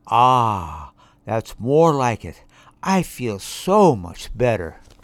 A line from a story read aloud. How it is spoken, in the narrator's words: she sighed, and said